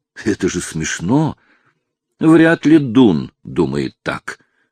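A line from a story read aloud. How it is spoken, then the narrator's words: Gloomy remark. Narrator (Russian): мрачно заметил Гарри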